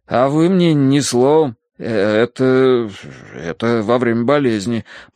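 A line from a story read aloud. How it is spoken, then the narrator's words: Mumbling. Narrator (Russian): промямлил я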